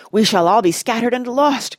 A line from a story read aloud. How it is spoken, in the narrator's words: groaned Aragorn